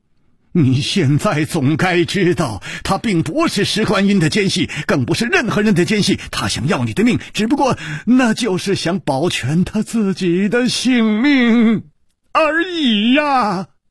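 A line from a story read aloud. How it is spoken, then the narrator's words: Angry roar. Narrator (Chinese): 李玉涵怒吼道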